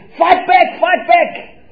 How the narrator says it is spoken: you hear him shouting

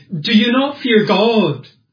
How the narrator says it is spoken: He cries out to the man beside him

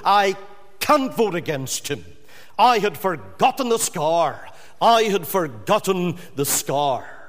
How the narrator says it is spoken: he cried out with emotion

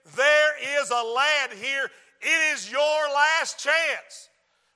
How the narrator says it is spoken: in his Mississippi accent

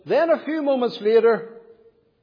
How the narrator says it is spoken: he cried with a loud voice

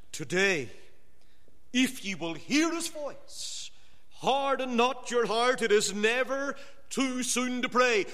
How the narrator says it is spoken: The Holy Ghost, when he strives with man, always cries

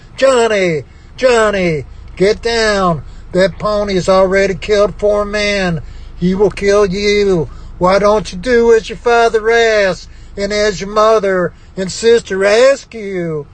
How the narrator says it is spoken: His mother and sister cried

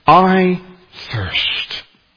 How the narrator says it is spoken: he cries out

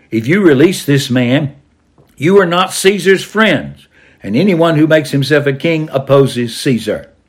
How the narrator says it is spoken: the Jews shouted

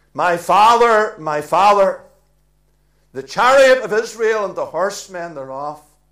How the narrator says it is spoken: Elisha ... cried

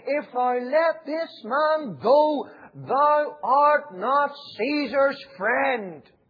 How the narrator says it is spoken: the Jews cried out, saying

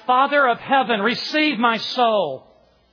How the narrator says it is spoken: Latimer cried out

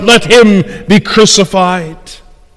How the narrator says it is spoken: again the crowd cried

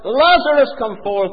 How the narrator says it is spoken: with power, divine power and omnipotence, he cried out

